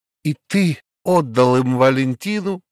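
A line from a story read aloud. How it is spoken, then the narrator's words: Shout. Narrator (Russian): закричал Лютиков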